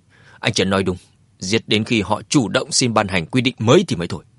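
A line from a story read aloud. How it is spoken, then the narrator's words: Stern. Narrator (Vietnamese): Anh ta nghiêm nghị nói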